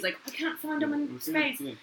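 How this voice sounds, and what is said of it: Poor imitation of Scottish character voice. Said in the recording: “That was a bad Scotty.”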